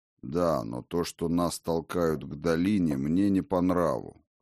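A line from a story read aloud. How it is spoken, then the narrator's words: Old man grumbling. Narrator (Russian): проворчал старый Хрофт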